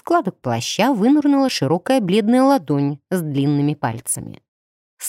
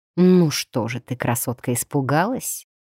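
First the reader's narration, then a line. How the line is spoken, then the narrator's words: Soft, gentle. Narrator (Russian): мягко заметил незнакомец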